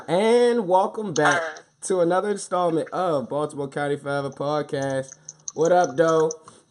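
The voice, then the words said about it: Voice affected by a cold. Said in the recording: “My voice is kind of, uh, uh, uh, uh, fluidly overcome by cold. I'm sick. ... I got a little chop and screw to my voice.”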